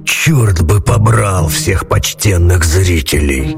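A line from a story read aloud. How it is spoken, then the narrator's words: Grumbling. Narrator (Russian): Проворчал он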